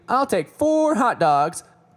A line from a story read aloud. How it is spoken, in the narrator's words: exclaiming